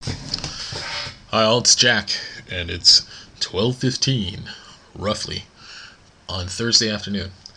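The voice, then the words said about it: Put-on radio announcer voice. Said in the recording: “That's my radio voice. I don't know if it's a good radio voice or not.”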